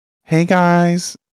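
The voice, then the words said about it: Imitates another person's voice. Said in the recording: “I tried to sound like Sydney there... that impression of me”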